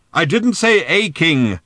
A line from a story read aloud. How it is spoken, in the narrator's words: shouted old Thrashbarg